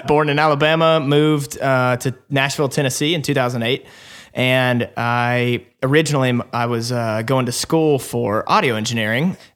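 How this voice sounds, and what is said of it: Slight Southern Alabama twang. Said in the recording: “I was born in Alabama. Probably can hear some of that little twang still in my voice.”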